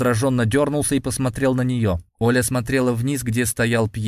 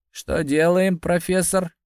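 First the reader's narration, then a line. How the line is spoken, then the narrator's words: Muffled question. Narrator (Russian): глухо спросил Сергей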